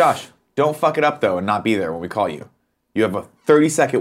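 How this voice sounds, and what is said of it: Usual voice. Nothing is said of it.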